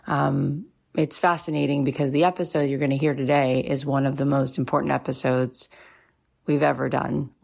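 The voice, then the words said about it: Slightly scratchy voice. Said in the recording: “my voice sounds a little scratchy ... There's been a lot of big tears”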